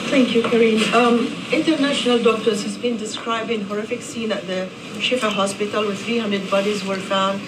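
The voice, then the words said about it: Non-native foreign accent. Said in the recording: “she has an accent. She's from somewhere”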